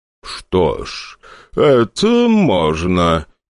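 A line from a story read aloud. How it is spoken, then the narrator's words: Drawling reply. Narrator (Russian): тягучим голосом ответил тот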